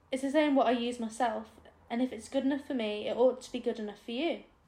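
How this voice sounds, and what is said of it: Put-on northern English accent. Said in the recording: “I imagine it with a northern accent here”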